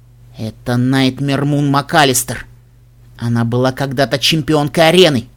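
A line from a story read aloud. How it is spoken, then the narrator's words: Through gritted teeth. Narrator (Russian): Тиара процедила сквозь зубы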